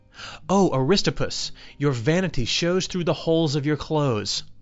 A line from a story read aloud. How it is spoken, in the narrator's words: Socrates exclaimed